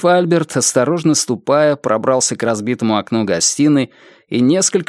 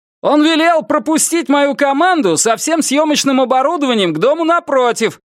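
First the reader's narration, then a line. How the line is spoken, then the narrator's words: Shouted. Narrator (Russian): прокричал он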